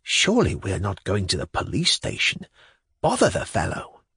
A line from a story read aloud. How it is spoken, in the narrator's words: I whispered to him